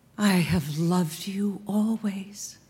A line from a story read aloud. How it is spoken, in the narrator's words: a voice, her voice, whisper